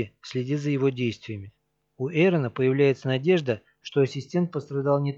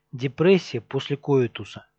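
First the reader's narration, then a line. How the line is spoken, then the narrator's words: Barely audible. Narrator (Russian): произносит Коби еле слышно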